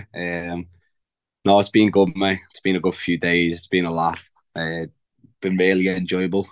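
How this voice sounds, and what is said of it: Strained, worn-out voice. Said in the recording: “As probably people listening to this can tell, my voice isn't in the best of moods at the minute.”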